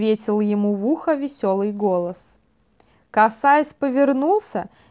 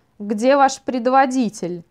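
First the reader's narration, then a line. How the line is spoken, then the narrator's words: Sharp question. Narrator (Russian): резко спросил Вайл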